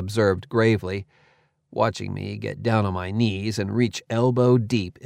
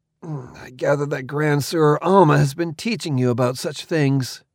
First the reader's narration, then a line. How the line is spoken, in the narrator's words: grunted